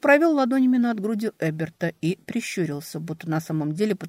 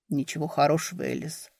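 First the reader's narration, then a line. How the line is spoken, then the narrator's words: Muffled reply. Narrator (Russian): глухо ответил он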